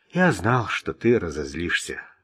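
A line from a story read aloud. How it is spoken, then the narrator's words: Sighing. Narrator (Russian): вздохнул Орн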